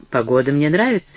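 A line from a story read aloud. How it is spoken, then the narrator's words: Sharp, contemptuous. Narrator (Russian): резко ответил Броуди, с презрением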